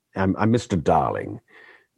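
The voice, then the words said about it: Put-on generic English accent. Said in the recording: “that's not quite how I sound. That's just my generic English accent.”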